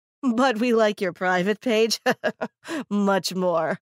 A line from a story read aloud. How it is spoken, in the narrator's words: another laughed